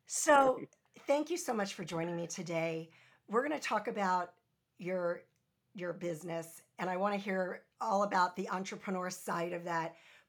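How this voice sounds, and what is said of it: Raspy, hoarse voice. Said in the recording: “my voice is a little bit raspier than normal ... my voice is a little hoarse”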